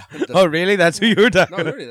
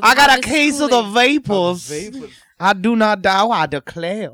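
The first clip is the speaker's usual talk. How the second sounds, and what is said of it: Bad put-on Southern accent. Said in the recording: “That was a horrible Southern accent.”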